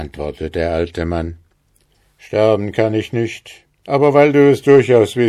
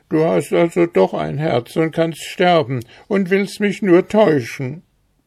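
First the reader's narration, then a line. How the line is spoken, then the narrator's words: Weeping, wailing speech. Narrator (German): Sie weinte, jammerte und sprach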